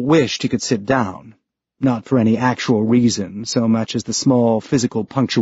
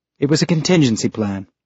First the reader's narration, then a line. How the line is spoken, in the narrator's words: she said